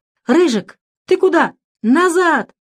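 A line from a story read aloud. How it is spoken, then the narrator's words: Shouting. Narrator (Russian): закричал Дэвид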